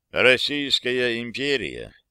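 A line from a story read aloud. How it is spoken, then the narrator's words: Quiet, emphatically calm. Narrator (Russian): государь заговорил тихим и подчеркнуто спокойным голосом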